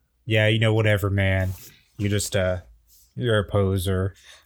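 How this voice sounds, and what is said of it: Deep-voiced chill surfer skater dude. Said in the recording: “I'm the very chill skater kid ... deep voice ... I am like a surfer dude, skate kid ... deep tones”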